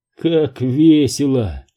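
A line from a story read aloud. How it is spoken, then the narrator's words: Sad, ironic. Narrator (Russian): грустно сказал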